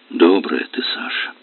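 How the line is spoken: Gentle quiet voice. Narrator (Russian): сказал он ласково и тихо

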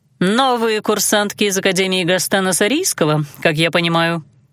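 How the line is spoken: Dry clarification. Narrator (Russian): сухо уточнила она

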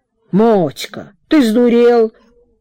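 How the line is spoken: Hissing like geese. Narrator (Russian): парни и шипели, будто гуси

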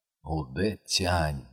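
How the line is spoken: Mumbling. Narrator (Russian): бормочет Чань

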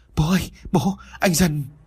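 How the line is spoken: Trembling, frightened. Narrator (Vietnamese): Mai run rẩy vừa nói

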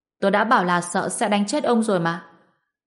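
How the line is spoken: Bursting into laughter. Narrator (Vietnamese): Ngô Bình cười phá lên

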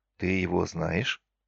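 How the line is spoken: Whispered into ear. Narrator (Russian): шепнул я ей на ушко

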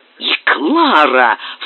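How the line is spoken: Muffled cry. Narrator (Russian): вскричал он глухим голосом

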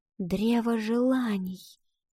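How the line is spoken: Girl whispering. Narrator (Russian): прошептала девочка

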